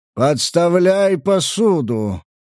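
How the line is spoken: Booming bass yell. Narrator (Russian): Зычным басом проорал один из разливающих

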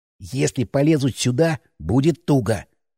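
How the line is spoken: Whispered. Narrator (Russian): прошептал

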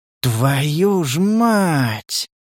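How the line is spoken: Drawn-out, almost respectful. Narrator (Russian): Почти с уважением в голосе протянул Стас

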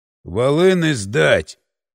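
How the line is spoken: Deep bass, thug. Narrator (Russian): пробасил один из мордоворотов

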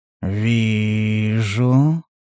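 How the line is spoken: Barely audible drawl. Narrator (Russian): Еле слышно протянул Стас

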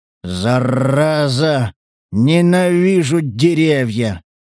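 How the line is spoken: Giant growling. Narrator (Russian): рычал великан

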